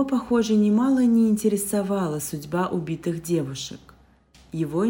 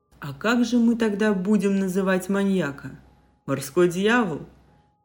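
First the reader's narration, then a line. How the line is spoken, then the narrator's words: Short chuckle. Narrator (Russian): хохотнул Алекс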